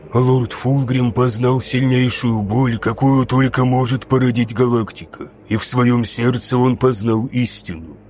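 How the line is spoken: Wheezing, trembling with doubt. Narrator (Russian): продолжал Каэсарон, и в его хрипящем голосе Люций уловил трепет сомнения

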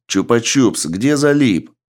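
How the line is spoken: Shouted. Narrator (Russian): Александр крикнул

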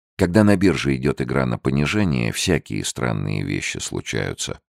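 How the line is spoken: Calm, wise objection. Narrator (Russian): спокойно и мудро возразил Фрэнсис

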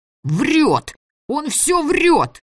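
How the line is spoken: Yelling again. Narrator (Russian): Снова заорал Митяй

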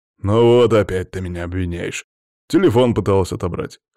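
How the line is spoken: Wry snort. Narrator (Russian): хмыкнул Макс

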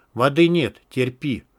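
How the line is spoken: Cold. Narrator (Russian): холодно произнес Антон

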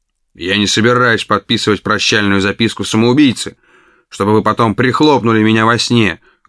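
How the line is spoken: Rough. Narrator (Russian): грубо сказал

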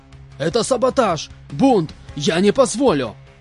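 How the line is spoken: Yelling at top of lungs. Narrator (Russian): Орал во всю глотку полкан

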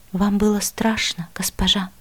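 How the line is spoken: Quiet question. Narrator (Russian): тихо спросил Мила

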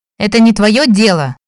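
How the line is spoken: Barked sharply. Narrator (Russian): рявкнула на него принцесса

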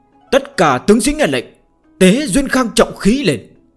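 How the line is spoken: Relieved, suddenly loud. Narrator (Vietnamese): như chút được gánh nặng, đột nhiên cao giọng nói

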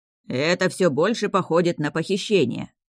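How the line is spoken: Grumbling. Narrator (Russian): заворчал Басит

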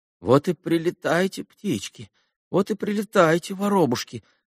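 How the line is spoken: Worried muttering. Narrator (Russian): бормотал он озабоченно

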